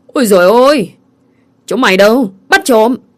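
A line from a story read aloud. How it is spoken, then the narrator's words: Shouting. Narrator (Vietnamese): cậu mình quát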